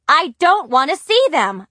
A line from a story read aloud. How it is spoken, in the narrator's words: shouted